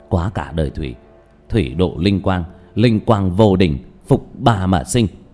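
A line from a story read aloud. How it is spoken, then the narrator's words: Whispered chant. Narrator (Vietnamese): mỉm cười, giọng thì thầm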